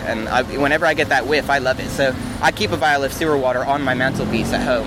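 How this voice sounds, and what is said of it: Speaks with a noticeable accent. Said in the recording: “where your accent might be from?”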